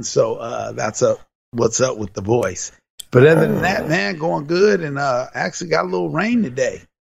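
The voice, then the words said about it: Slightly raspy voice. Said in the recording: “my voice sounds a little raspy, ... Sometimes you got to give the ref a little bit of an earful”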